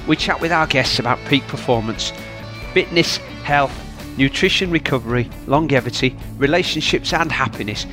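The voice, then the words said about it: Yorkshire English accent. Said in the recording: “you'll always hear a Yorkshire accent”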